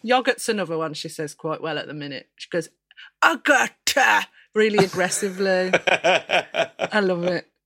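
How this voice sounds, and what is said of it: Brummie Birmingham English accent. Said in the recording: “I'm quite Brummie as well... she's definitely got my accent, which is terrible”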